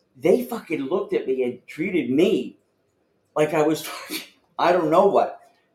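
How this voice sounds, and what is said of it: East Coast American accent. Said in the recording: “your accent probably has some, because clearly you're East Coast.”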